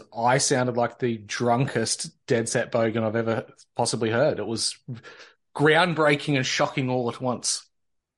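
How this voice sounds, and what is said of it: Drawn-out, harsh Victorian Australian accent. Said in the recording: “I think it's Victorians. We've definitely got this more of a drawn out, harsher accent. I think because we've got a lot of Irish and Scotch ancestry going on down here”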